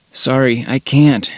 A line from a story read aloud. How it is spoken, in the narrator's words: groan